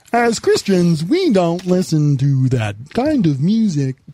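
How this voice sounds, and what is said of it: Kermit-like robotic character voice. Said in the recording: “You sound like a Kermit... Almost like a speak and spell.”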